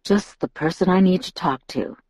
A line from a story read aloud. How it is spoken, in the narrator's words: he murmured